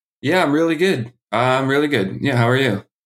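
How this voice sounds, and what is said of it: Flat, unenthusiastic delivery. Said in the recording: “Wow, you sound enthusiastic. ... Way to sell it. Are you sad?”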